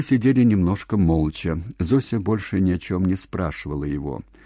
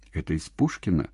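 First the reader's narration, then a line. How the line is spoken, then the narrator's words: Quiet question. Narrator (Russian): тихо спросила Зося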